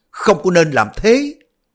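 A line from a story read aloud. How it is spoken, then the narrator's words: Panicked cry. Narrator (Vietnamese): Đoàn Dự hốt hoảng kêu lên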